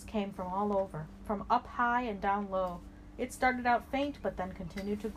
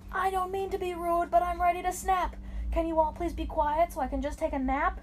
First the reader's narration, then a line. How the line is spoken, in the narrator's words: He had yelled it so loudly it was heard sea to sea